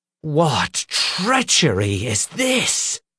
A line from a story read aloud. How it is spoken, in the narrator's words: He snarled, his face turning red